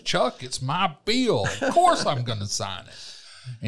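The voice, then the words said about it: Imitates another person's voice. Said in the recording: “my best Brian Kemp imitation”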